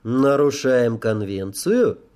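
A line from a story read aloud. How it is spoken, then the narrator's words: Even-voiced question. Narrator (Russian): ровным голосом спросил я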